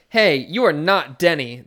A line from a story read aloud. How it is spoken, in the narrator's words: the ghost horse shouts